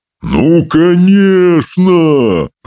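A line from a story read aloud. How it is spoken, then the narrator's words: Booming. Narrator (Russian): прогудел Стоик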